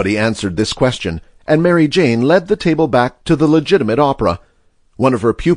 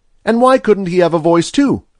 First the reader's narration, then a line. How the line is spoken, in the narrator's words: asked Freddie Malin sharply